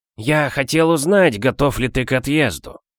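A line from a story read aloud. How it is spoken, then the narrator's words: Dry embarrassed cough, phone. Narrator (Russian): Он сухо кашлянул в трубку, будто смущаясь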